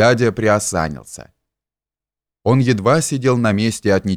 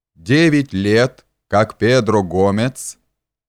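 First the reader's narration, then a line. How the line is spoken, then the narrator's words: Small clear child reciting. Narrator (Russian): начал Илюша маленьким, ровным и ясным голосом, без запятых и без точек, как обыкновенно сказывают маленькие дети заученные стихи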